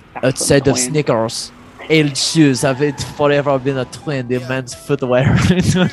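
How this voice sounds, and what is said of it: Put-on French accent. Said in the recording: “Do a French accent.”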